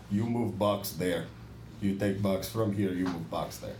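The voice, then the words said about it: Put-on Eastern European accent. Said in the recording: “I've been working on my Eastern European accent.”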